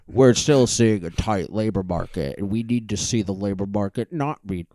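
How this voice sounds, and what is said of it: Imitates another person's voice. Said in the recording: “do a Jerome Powell impression ... That was pretty good.”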